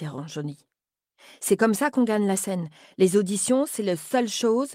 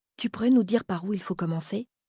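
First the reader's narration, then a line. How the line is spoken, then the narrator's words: Timid question. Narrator (French): demande timidement Lola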